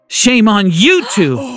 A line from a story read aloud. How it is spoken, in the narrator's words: Grandma shouted